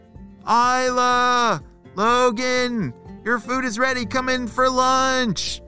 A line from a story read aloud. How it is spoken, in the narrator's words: shouted their parents